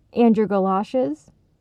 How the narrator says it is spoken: Jake asked

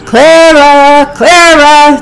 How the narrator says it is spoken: the two continued to shout

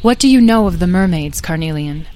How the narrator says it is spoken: asked Beatrice

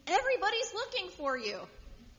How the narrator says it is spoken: they exclaimed

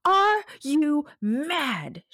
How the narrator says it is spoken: she shrieked

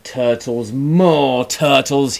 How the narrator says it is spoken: he bellowed and brayed

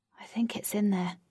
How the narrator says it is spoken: she whispered

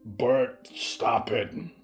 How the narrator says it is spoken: Mort grunted

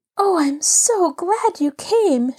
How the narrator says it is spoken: she cried

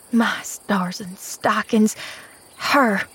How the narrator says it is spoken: breathed Nancy behind her teeth

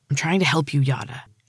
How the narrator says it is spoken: he hissed angrily

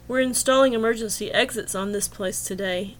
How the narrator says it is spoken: grunted

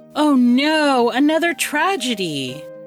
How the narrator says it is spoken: Aristea cried

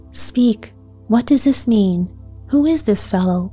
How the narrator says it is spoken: cried the king

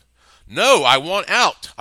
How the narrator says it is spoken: I exclaimed

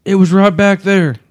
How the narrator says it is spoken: Ken exclaimed

